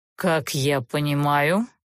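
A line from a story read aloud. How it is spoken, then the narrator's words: Cold inquiry. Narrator (Russian): холодно поинтересовался Олтерн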